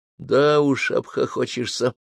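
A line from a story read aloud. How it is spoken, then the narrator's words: Sighing. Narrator (Russian): вздохнул я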